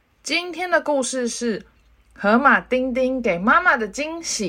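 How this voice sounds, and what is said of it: Usual voice. Nothing is said of it.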